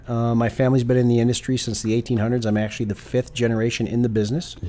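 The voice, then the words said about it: Chicago American accent. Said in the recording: “which is why I have the accent I have. It's from Chicago.”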